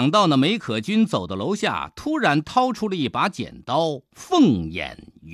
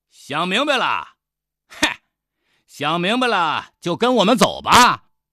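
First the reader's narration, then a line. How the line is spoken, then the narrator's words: Loud. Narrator (Chinese): 胖衙役 大声地说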